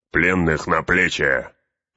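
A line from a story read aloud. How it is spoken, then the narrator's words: Barked order. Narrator (Russian): рявкнул Углук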